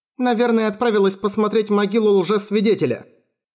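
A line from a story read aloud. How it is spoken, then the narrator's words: Exclaiming. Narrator (Russian): воскликнула Тиат, которая прыгала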